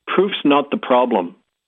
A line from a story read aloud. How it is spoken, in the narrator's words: Bingo finally said